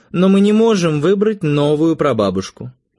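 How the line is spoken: Sighing. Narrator (Russian): вздохнул Эрнеста

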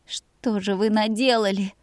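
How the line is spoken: Breathed out. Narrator (Russian): выдохнула я

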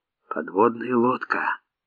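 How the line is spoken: Whisper. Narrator (Russian): почему-то шепотом сказал Василий

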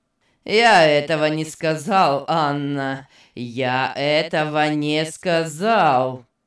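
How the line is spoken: Cold repeating. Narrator (Russian): холодно повторил Беннет

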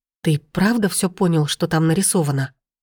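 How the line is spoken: Quiet cautious question. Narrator (Russian): тихо и как-то осторожно спросила

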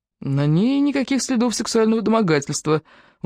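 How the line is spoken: Weary objection. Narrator (Russian): устало возразил Купер

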